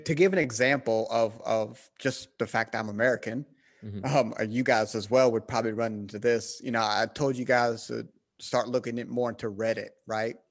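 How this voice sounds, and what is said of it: Southern American accent. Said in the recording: “you clearly have a bit of a more Southern accent”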